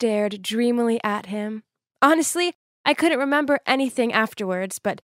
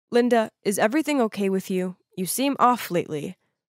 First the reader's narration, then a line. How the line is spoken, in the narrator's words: in a serious tone, he said